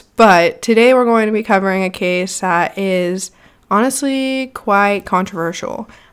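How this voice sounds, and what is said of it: Slightly nasal, congested voice. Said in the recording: “I sound a little nasally still”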